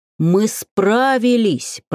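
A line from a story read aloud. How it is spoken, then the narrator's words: Deep bass voice. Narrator (Russian): пробасил Живарк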